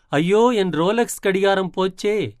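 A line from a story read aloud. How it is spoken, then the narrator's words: Even louder voice. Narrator (Tamil): உடனே இன்னும் உரத்த குரலில்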